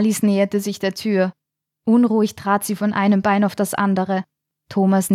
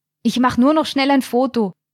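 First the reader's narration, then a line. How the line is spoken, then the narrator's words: Calling out. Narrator (German): rief ihr Stefan zu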